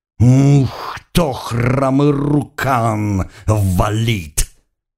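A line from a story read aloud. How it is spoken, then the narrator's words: Growling shaman woman. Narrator (Russian): прорычала шаманка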